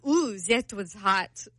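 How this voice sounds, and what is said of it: Bad put-on accent. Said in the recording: “that was a really bad accent.”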